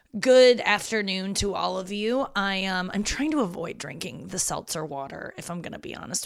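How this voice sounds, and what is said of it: Gravelly, husky voice. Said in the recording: “My voice is coming in real gravelly today... I'm husky as shit... it's just the way my voice is”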